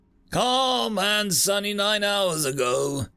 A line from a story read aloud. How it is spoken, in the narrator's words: yelled